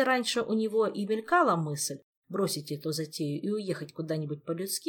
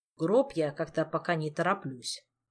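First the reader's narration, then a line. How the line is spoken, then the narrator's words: Grumbling. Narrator (Russian): проворчал Кантер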